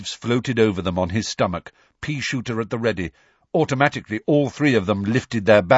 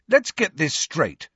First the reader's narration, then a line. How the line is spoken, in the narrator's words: said Harry angrily